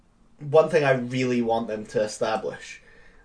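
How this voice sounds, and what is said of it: Usual voice. Nothing is said of it.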